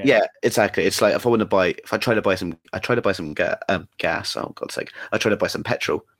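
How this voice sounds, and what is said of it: English accent. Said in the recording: “the absolute attention my accent gets ... I'm from England”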